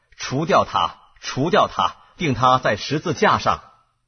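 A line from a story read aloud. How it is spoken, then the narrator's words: Crowd shouting. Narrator (Chinese): 他们喊着说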